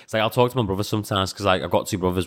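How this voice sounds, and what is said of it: Scouse-sounding English accent. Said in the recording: “I don't think you could tell that you're from Latvia. I think your English accent ... people say I sound scouse.”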